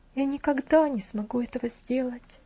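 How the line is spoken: Sad. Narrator (Russian): грустно сказал

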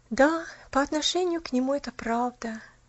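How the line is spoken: Sighing. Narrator (Russian): наконец вздохнула она

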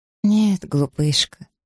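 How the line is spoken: Hesitant, almost frightened. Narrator (Russian): ответила Маргарет не в своей обычной нетерпеливой манере, а неуверенно, почти испуганно

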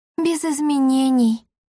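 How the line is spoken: Gloomy reply. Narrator (Russian): мрачно ответила Леонтина

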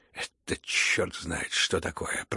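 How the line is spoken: Low grumbling. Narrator (Russian): проворчал вполголоса Иван Федорович

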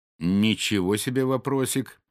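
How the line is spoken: Laughing. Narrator (Russian): она рассмеялась

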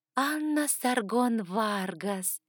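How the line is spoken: Dreamy drawl. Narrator (Russian): мечтательно протянула она

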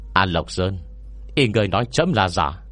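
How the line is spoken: Cold imperial speech. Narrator (Vietnamese): Hoàng đế lạnh lùng nói

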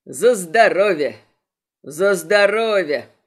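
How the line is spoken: Booming. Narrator (Russian): прогудел Морли

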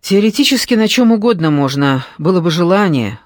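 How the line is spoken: Wry snort. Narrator (Russian): хмыкнул следователь

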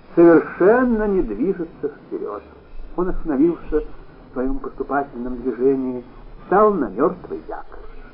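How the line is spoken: Weary. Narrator (Russian): устало произнесла Вера Николаевна

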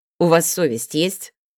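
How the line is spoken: Menacing question. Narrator (Russian): грозно вопросил Белецкий

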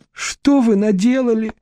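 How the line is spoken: Sobbing. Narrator (Russian): с рыданием обратилась к ней Вера

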